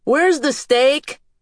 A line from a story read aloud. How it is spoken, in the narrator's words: Antonio called out